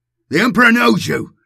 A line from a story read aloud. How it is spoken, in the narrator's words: I bellowed